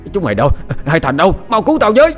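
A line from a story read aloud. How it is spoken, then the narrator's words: Panicked shouting while running. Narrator (Vietnamese): Hội đồng quản cắm đầu bỏ chạy, vừa chạy vừa hét lớn kêu cứu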